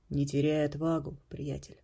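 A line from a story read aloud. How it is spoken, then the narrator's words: Whispered. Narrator (Russian): шепнул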